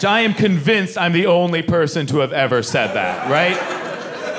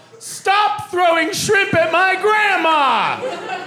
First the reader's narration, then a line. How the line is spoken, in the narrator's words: I'm 8 years old, I yell